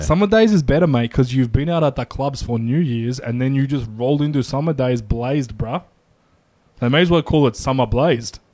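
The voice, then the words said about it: Put-on Eastern European sleazy accent. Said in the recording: “Good accent. ... Eastern European sleaze bag. ... Need to head a little further east towards Lebanon.”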